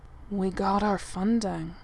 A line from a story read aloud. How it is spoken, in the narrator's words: Eric says in an odd tone